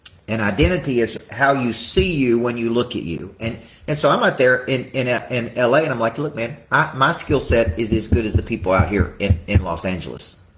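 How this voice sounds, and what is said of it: Southern American accent. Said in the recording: “I may bring a Southern accent”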